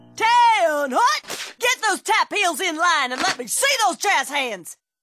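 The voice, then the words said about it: Barking drill instructor voice. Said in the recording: “my impression of a drill instructor directing a musical”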